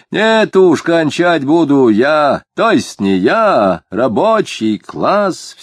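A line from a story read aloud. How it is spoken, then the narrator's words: Increasingly loud and resolute. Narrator (Russian): все более громко и решительно заявил рыжеватый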